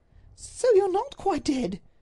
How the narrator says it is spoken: she cried

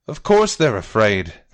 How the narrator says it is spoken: the captain says, his roar cutting through the crowd like a shark's fin

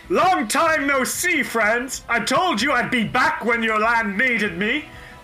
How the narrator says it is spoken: He shouts out to you

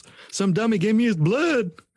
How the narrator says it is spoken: he shouted to his friends

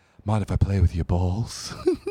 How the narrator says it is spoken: She breathed

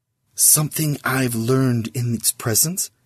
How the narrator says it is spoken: he whispered to Sis

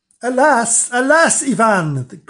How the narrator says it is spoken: cried they

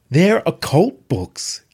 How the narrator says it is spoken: Kat cried

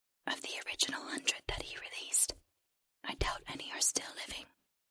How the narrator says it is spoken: the creature whispered

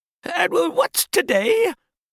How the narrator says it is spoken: cried Scrooge, calling down to a boy

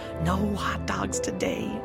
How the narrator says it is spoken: sarcastically murmured

